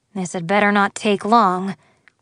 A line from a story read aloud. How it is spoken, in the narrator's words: grumbled Liam